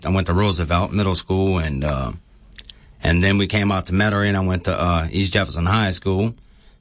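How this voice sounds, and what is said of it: Louisiana Kenner-area local accent. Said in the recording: “most people who would hear you talk think that you might come from down the bayou ... the accent I'm listening to is kind of like Kenner, brah ... That's exactly 100% what it's like”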